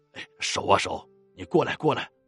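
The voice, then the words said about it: Soft, hushed calling voice. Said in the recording (Chinese): “小声喊道”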